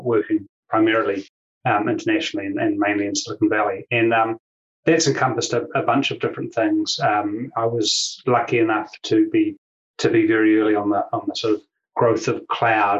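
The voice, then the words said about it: New Zealand accent. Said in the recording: “as people will know, will sense from my accent, I'm from New Zealand”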